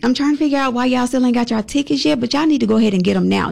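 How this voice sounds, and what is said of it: Southern American accent. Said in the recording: “you just saying it with a southern accent”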